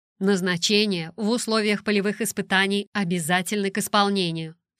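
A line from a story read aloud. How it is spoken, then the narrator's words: Stern declaration. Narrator (Russian): суровым тоном заявила она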